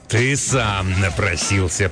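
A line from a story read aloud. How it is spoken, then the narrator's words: Angry growl. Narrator (Russian): прорычал он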